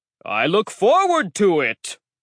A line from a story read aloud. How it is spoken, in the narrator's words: the giant boomed